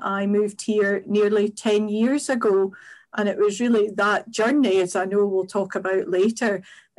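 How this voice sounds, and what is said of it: Scottish accent. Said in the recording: “despite the Scottish accent”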